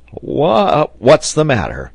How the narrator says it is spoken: he cried, rousing himself

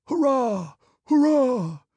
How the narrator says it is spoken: growing ever stronger and fuller and merging into a deafening roar

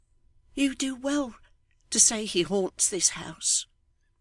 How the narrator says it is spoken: returned the widow faintly

